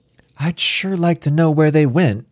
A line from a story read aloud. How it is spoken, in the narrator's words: Star sighed